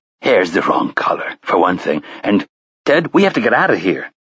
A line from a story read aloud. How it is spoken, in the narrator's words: the youngest of the three said urgently